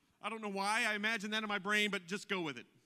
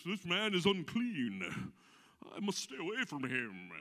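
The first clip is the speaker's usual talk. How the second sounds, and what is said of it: Put-on English accent. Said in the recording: “I imagine him with an English accent.”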